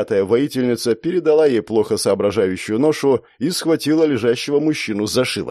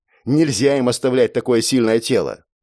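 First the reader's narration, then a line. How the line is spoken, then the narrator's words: Hurried explanation. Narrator (Russian): пояснила она торопливо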